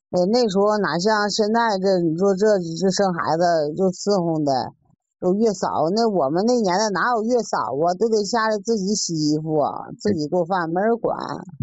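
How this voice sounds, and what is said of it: Northern Chinese accent. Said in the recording (Chinese): “听你这口音还是北方的”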